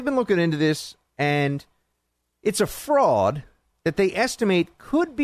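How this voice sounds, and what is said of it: Usual voice. Nothing is said of it.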